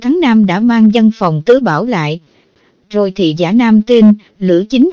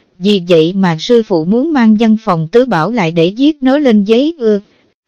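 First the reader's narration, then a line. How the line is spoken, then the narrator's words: Smiling. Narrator (Vietnamese): Chu Án Nam mỉm cười nói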